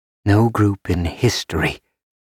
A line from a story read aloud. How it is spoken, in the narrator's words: Loris breathed